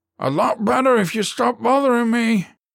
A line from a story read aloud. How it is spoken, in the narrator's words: his teammate yelled from below the dashboard